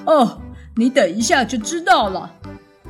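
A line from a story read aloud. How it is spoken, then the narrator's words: Laughing. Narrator (Chinese): 猪大哥笑着说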